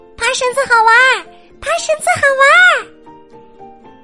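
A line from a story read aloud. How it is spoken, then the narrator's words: Loud shouting. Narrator (Chinese): 米莉和茉莉大声叫着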